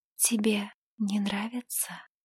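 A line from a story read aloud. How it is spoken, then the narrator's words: Moist whisper. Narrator (Russian): Ее влажный шепот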